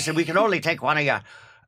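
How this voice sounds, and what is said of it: Put-on Irish accent. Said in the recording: “That's my English, Irish accent.”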